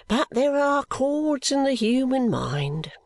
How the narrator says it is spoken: Guppy with a sigh

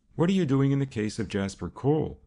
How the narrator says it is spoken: asked Mann quickly

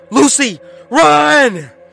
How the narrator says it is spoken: Danny yelled

